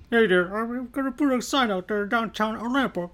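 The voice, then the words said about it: Cartoonish imitation of another person's voice. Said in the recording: “That's my Kermit impression ... You sound more like a South Park character than anything.”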